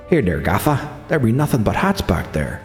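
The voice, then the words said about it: Put-on Mick accent. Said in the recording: “That was my Mick accent.”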